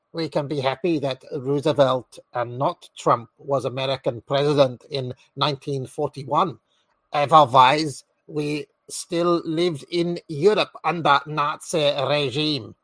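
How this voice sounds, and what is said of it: Generic made-up foreign accent. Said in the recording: “that accent, it was just my made-up accent that I do all the time ... It's my generic, like, all-purpose foreign accent”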